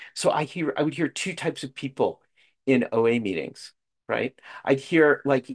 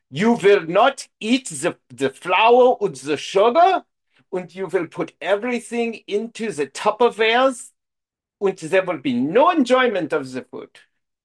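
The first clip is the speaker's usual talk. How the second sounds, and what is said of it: Put-on accent. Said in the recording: “I don't know why it's always in this kind of accent”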